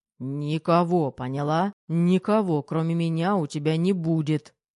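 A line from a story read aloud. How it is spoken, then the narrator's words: Growl against lips. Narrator (Russian): рыкнул он в ее губы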